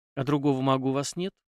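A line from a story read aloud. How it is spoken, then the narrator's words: Barely audible, sniffling. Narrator (Russian): еле слышно спросила Даша, шмыгнув носом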